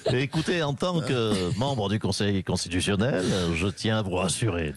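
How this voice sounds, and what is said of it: Imitates another person's voice. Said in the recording (French): “j'ai un petit timbre de voix. Petit accent.”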